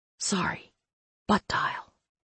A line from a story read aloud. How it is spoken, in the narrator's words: I whispered